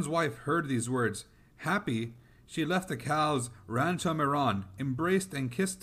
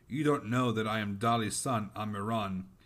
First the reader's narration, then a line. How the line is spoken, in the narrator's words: Then Amiran grumbled